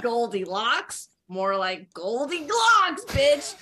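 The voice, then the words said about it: Imitates another person's voice. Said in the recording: “do an impression ... I'm going to get her voice right in my head.”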